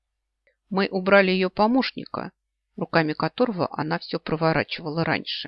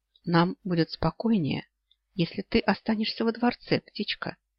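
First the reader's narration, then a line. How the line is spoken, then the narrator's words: Whispered. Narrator (Russian): шепнул Оллер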